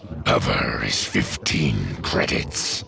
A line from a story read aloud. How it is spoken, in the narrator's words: he growled